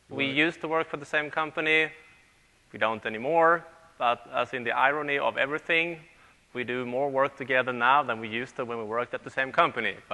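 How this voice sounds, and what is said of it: Swedish-accented English. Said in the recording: “As you can hear from the accent, we live in Sweden.”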